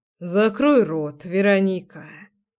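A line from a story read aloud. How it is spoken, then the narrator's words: Sigh. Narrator (Russian): вздохнул он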